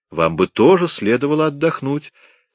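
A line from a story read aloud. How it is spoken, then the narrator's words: Cheerful speech. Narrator (Russian): сказал он ей бодро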